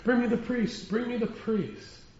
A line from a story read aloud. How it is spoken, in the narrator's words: as he screamed, he cried out